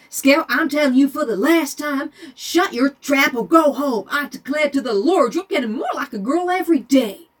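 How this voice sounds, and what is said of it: Put-on Southern US drawl. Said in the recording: “I can't be angry in the southern accent. It's just such a nice draw.”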